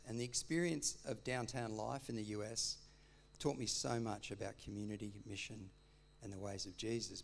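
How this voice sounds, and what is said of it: Slight American accent. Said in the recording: “My Kentucky accent's gone away a bit because the yak one stuck. ... So I still have a bit of a yak accent,”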